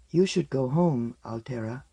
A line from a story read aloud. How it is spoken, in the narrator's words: she said very softly